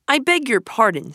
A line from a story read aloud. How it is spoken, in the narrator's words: said Rat